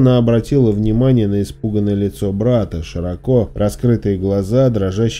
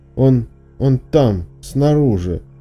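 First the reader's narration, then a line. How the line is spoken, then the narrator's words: Strained. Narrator (Russian): выдавил Шон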